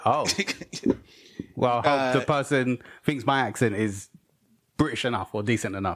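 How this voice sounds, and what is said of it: British accent. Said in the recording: “the British accent ... It's more British than our accent”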